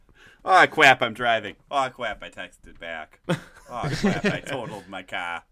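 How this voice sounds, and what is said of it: Put-on Boston accent. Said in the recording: “Wait, why are you from Boston now?”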